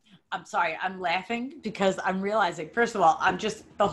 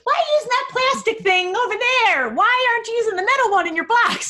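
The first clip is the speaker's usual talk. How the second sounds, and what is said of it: Childlike imitation of another person's voice. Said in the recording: “Was my exact voice, by the way. Perfect. That was such a great impression. ... I'm good at voices.”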